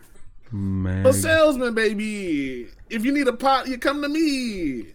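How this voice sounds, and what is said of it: Vague put-on Italian accent. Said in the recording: “This vague Italian accent I got.”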